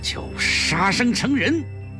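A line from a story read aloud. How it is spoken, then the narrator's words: Through gritted teeth. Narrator (Chinese): 赖锦元一咬牙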